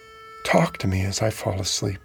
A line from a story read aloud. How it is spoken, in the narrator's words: She whispered